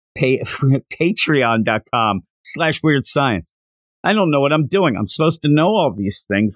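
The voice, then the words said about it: Strained, hoarse voice. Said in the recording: “I'm losing my voice right now”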